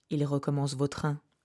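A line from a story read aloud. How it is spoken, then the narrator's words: Said quietly. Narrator (French): dis-je tout bas à Lireux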